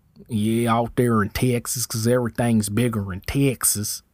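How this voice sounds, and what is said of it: Put-on Texan accent. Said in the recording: “that's my accent”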